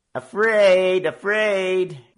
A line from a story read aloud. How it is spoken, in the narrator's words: the young roughs jeered and taunted